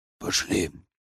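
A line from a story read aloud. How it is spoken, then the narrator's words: Hoarse wheeze. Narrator (Russian): прохрипел эзотерик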